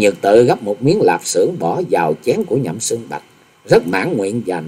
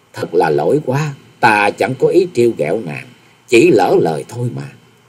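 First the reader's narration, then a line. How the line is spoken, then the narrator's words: Smiling, apologetic. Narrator (Vietnamese): Nhậm Xưng Bạch nuốt vội miếng thịt ở trong miệng, chàng mỉm cười nói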